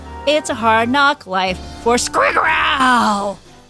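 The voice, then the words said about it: Dinosaur-like character voice. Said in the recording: “my dinosaur impression”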